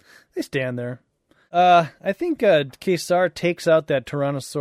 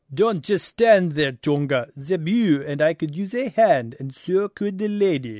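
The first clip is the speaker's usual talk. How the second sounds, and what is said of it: Terrible put-on French accent. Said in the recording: “It was a terrible French accent. I tried, though.”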